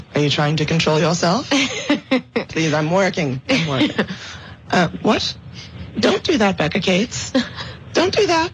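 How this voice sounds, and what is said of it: Husky, partly lost voice. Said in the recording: “You got a very sexy voice today ... I'm dealing with my annual voice loss”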